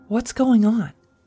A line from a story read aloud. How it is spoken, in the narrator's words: asked nervously